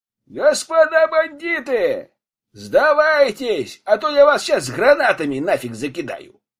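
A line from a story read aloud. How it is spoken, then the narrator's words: Shout. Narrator (Russian): крикнул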